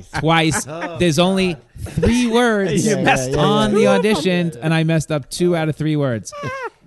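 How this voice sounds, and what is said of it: New York accent. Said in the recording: “my New York accent is water”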